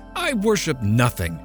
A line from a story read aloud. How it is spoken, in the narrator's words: she cried